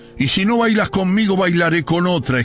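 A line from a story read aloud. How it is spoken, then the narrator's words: Exclaimed. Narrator (Spanish): exclamé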